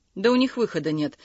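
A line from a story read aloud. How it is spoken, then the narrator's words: Calm firm reply. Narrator (Russian): спокойно и твердо ответил Константин Георгиевич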